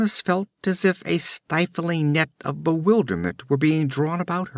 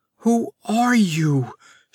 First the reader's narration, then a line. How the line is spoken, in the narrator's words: she cried desperately